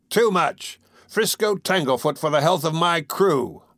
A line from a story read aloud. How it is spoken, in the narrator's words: Wolf Larsen shouted after